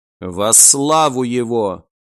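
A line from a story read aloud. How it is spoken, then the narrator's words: Quiet fervent voice. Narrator (Russian): тихо проговорила Бель, фанатично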